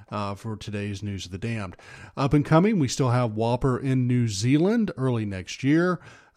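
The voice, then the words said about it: Slightly hoarse, froggy voice. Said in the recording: “as you can tell from my voice, I got a little frog still that's left. I caught a cold”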